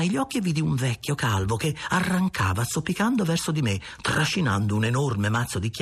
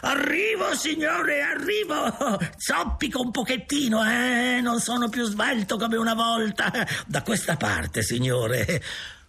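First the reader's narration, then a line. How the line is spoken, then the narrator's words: Continuous shouting. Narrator (Italian): lui continuava senza smettere di gridare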